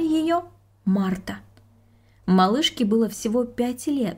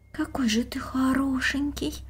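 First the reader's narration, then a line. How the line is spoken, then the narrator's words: Whispered. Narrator (Russian): прошептала девочка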